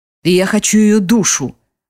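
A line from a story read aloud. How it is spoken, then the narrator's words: Menacing. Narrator (Russian): грозно говорит Радмир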